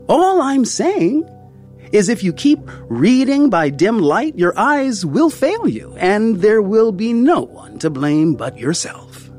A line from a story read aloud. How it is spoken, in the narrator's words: he'd said, his voice rising above my tears